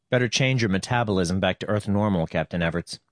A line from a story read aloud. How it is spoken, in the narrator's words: said, and his voice was so normal that he hardly recognized it